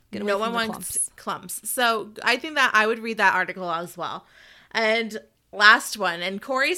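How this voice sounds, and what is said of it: Usual voice. Nothing is said of it.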